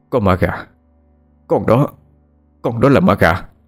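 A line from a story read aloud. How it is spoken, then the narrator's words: Stammering. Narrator (Vietnamese): bố cái bích tỉnh táo nhất thì chỉ lắp bắp nói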